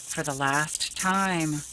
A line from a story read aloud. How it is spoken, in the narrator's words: she murmured